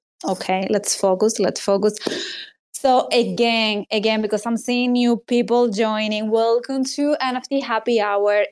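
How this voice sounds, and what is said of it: Speaks with a non-native accent. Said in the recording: “what a beautiful accent I have”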